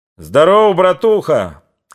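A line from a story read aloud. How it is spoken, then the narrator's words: Joyful excited shout. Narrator (Russian): крикнул Григорий, улыбаясь Петру, радостно волнуясь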